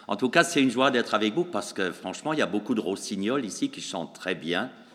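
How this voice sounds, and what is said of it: Alsatian French accent. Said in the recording (French): “vous le remarquerez à mon accent, il est un peu différent de l'accent belge, mais il est bien prononcé ... alsacien”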